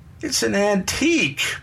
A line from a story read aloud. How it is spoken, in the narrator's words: Bernie whined